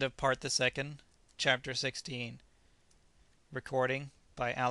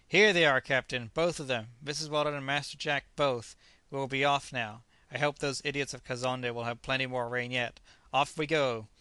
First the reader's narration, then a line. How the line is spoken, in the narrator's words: the magician exclaimed in a jeery voice